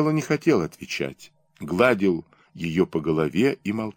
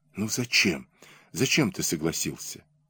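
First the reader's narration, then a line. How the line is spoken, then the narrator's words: Whispered. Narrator (Russian): зашептала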